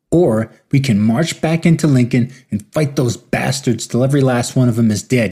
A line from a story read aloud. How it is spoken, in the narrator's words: yelled